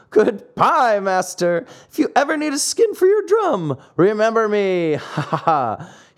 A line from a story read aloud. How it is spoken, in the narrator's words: Swimming away as fast as he could, he cried out, laughing